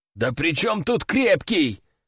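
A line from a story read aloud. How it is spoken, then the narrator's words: Exclaiming. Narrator (Russian): воскликнул майор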